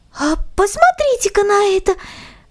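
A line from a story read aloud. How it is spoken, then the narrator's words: Girl's joyful exclamation. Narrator (Russian): радостно воскликнула девочка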